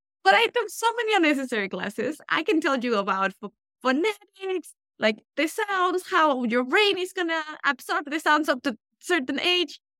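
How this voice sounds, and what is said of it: Speaks with a noticeable accent. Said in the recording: “clearly I did not lose my accent, people... And I love your accent. It's like the most endearing.”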